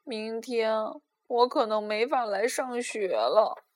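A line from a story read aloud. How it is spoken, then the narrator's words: Sighing. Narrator (Chinese): 他叹息道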